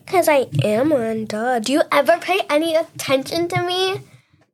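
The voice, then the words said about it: Robotic voice. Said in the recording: “Why do you sound like a robot?”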